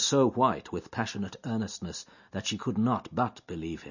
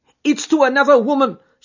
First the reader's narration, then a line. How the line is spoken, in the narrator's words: she cried